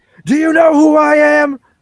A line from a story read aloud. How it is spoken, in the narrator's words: he just keeps screaming